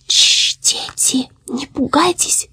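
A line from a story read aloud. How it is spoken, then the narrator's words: Distant whisper. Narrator (Russian): прошептало оно оттуда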